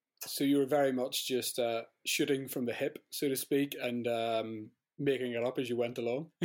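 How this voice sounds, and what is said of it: Northern Irish accent. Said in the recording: “my Northern Irish accent”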